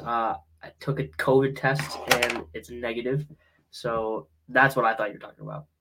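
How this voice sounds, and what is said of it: Slightly off voice from a cold. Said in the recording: “my voice is a little off. I'm having some cold symptoms.”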